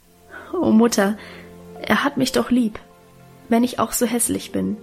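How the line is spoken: Stammering, laughing and crying. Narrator (German): Guste stammelte lachend und weinend

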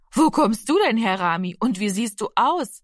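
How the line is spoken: Friendly woman laughing. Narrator (German): lachte die freundliche Frau

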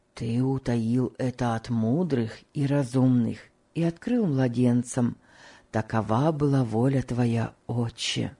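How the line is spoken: Whisper. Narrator (Russian): прошептал Том

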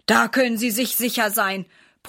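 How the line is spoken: Grumbled. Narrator (German): brummt Herr Schmidt

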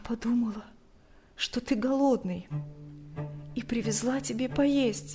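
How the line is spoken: Barely audible, strained. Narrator (Russian): еле слышно выдавила она

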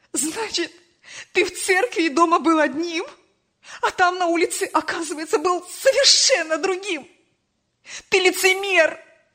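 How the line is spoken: Mother shouting through tears. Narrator (Russian): Сквозь слезы кричала мать

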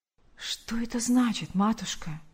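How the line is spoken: Whisper. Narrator (Russian): прошептал он

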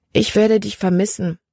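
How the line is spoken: Gentle. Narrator (German): sagte sie sanft

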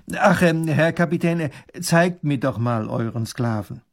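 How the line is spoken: Loud. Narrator (German): sagt er laut

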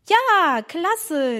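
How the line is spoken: Calling out. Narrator (German): rief Emma

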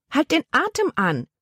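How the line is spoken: Woman calling out. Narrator (German): rief ihre Tante

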